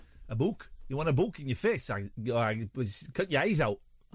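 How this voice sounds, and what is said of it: Put-on Geordie accent. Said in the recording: “In Geordie. Or a book. would be kind of bogue. It's kind of softer, bogue... Really, with the Geordie, you've got to really go for it... You've got to really give it.”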